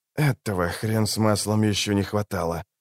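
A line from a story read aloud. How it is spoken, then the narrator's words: Grumbled. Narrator (Russian): проворчал Филин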